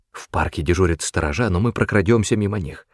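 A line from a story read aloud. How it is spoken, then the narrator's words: Quick whisper. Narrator (Russian): быстро шептал Доуэль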